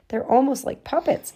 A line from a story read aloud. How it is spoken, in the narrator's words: she exclaimed